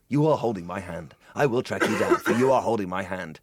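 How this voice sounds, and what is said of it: Imitates another person's voice. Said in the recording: “That was my Neeson impression.”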